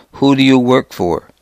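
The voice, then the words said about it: Calm, thick Arab accent. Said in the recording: “asked calmly in a thick Arab accent”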